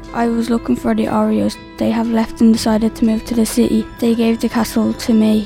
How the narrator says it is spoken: he said

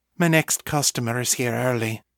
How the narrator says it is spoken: Mother said softly

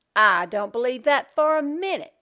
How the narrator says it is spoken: Judy spat the words

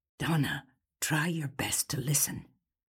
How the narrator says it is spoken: Gil whispered

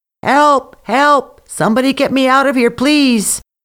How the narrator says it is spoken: he started shouting

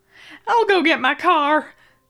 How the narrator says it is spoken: the waitress yelped

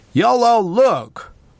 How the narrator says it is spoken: He called out loudly

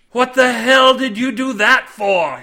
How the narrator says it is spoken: he screamed at his mates

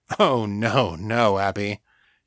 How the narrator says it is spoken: he said, chuckling

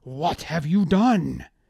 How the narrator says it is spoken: Meserem ... shouting at Devonstare

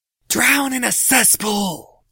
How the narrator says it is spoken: softly yelled the courier

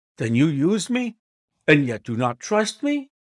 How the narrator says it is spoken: I cried with some bitterness

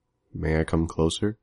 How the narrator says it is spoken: spoke gently

